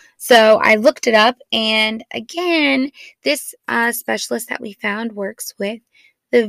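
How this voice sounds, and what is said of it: Usual voice. Nothing is said of it.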